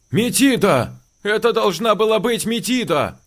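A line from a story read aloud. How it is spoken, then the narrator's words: Shouting. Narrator (Russian): кричал Васечкин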